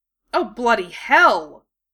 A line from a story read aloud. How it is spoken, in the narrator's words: He exclaimed suddenly